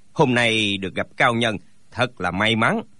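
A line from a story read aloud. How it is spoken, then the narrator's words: Smiling reply. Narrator (Vietnamese): Thạch Thạch Thanh mỉm cười đáp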